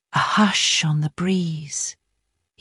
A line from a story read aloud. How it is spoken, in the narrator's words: he whispered